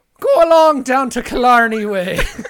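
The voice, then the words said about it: Put-on Irish accent. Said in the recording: “Irish accent.”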